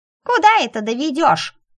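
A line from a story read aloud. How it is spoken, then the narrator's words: Grumpy snort. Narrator (Russian): сварливо фыркнула Белка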